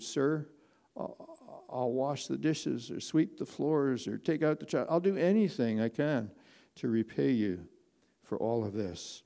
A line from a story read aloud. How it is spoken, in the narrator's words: in a shaking voice, I whispered